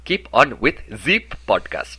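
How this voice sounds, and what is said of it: English with put-on French accent. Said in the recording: “talking in English with a French accent ... turn your these into z's ... You're very French, very French.”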